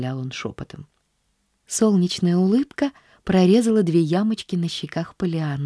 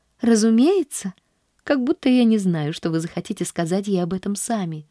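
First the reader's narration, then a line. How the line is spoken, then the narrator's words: Cheerful, tossed over shoulder. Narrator (Russian): весело бросила она через плечо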